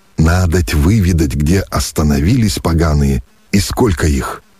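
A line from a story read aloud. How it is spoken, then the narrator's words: After hesitation. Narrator (Russian): После минутного замешательства произнес Мещеряк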